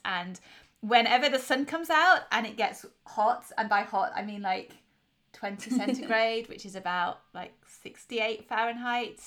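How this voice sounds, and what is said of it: English accent. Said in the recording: “I'm in England, as is maybe obvious by my accent.”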